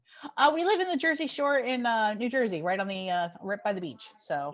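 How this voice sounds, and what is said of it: New Jersey accent. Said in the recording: “I love your accent.”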